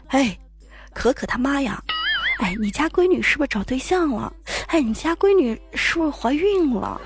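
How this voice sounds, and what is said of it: Hushed, gossipy neighbor voice. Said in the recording (Chinese): “李阿姨在小声的跟我妈说”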